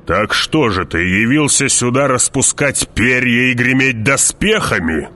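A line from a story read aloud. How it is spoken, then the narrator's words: Growling. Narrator (Russian): прорычал барон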